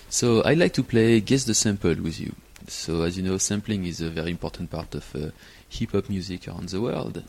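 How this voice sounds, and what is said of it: French accent. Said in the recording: “as you can tell from the accent, I'm French”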